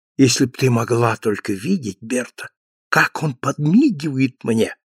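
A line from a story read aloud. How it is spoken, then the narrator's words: Whisper. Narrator (Russian): шепнул дочери Калеб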